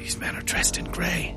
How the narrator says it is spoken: Hakim whispered

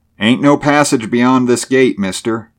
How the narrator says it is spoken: he called out

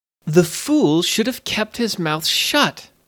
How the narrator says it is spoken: sputtered the queen

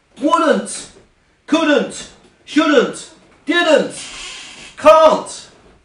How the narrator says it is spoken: all of a sudden, she started to shout out

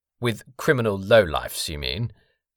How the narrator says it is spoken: asked Gabriel Sage scornfully

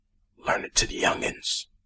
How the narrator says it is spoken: he whispered fiercely

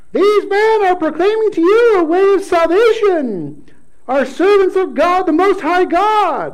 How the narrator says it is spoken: she cried out

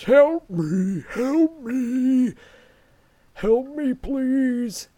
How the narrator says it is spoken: The mom, in her guttural voice, says

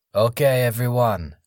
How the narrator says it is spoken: Nestor announced

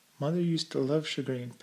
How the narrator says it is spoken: Pam remarked in a thoughtful tone

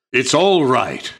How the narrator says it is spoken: shouted Aslan joyously

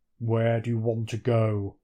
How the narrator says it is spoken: he asks in a deep voice

